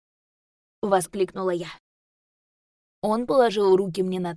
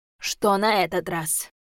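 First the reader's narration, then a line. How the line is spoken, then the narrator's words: Weary question, rector. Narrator (Russian): Устало спросил ректор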